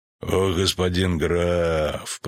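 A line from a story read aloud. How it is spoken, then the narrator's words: Creaky voice. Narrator (Russian): проскрипел он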